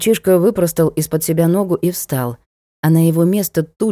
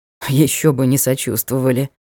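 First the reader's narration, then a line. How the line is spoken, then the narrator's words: Wry snort. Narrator (Russian): хмыкнул герцог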